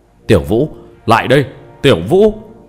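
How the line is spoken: Loud shout. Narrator (Vietnamese): Mộ Thanh Phong lớn tiếng quát

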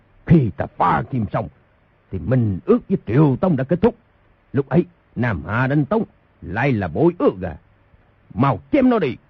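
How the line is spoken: Furious shout. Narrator (Vietnamese): Thành Các Tư Hãn cả giận quát

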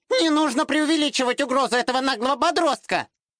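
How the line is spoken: Shrill female voice. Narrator (Russian): визгливый женский голос

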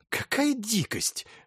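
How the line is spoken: Exclaiming. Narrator (Russian): воскликнул Кирасиров

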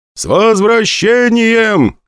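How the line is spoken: Crowd shouting. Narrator (Russian): кричали со всех сторон

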